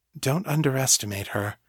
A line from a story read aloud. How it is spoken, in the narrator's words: she said, her tone surprisingly warm and encouraging